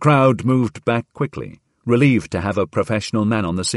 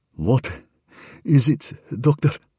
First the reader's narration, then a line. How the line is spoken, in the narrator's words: gasped Harvey, who felt the end of the world was about to come